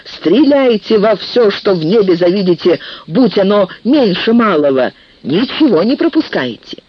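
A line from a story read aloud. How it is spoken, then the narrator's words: Shout. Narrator (Russian): он крикнул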